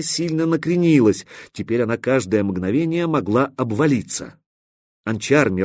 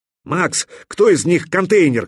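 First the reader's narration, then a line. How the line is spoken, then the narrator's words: Shouted. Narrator (Russian): крикнул Мировой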